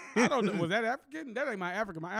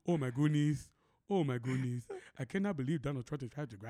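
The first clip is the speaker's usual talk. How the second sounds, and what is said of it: Put-on African accent. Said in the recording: “My African is”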